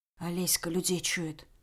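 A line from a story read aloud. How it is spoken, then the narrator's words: Quiet reply. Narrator (Russian): Так же тихо отозвалась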